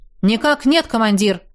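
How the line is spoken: Brisk report. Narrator (Russian): бодро отрапортовал цыган

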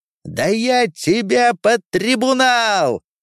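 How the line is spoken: Shouting. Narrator (Russian): закричал интендант

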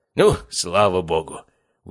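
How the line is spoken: Relieved exhale. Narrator (Russian): выдохнул Анатолий Федорович

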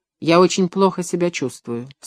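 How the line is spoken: Plain. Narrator (Russian): сказала она

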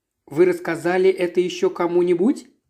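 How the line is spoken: Plain. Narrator (Russian): спросила я

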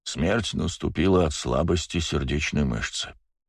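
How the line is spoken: Dry comment. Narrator (Russian): сухо прокомментировал он

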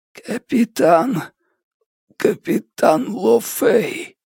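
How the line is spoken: Hoarse, slurred, laboured. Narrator (Russian): С трудом ворочая языком, Хан прохрипел

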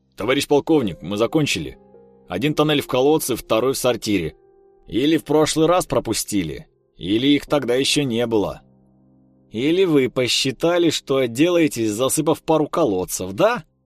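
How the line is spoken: Barked. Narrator (Russian): рявкнул молодой человек

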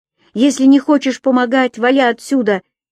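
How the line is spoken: Angry shouting woman. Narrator (Russian): Кричала она на него, словно в этот момент видела в нем того скрытого врага

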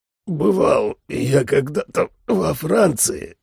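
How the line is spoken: Hoarse rasp. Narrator (Russian): просипел я

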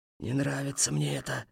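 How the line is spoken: Sad. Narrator (Russian): сказал хмель печально

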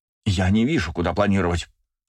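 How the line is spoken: Snapped. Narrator (Russian): огрызнулась Сенума

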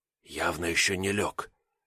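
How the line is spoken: Whispered. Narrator (Russian): шепотом констатировал я

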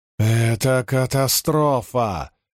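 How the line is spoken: Angry growl. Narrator (Russian): рычал Люка

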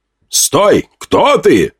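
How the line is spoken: Elf shouting. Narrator (Russian): выкрикнул эльф

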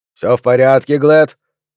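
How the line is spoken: Inquiring question. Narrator (Russian): поинтересовался охранник

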